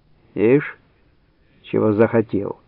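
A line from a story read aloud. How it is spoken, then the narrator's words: Plain, old woman. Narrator (Russian): сказала старуха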